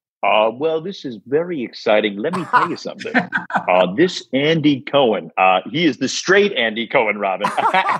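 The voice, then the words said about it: Howard Stern impression. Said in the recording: “You got to do your impression of another filthy rich guy. The king of all media. Howard?”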